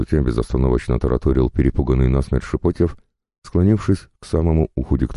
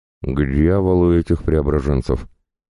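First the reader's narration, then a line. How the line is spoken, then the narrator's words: Slurred drunken mutter. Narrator (Russian): Заплетающимся языком пробурчал вдрызг пьяный Иван Федорович, брезгливо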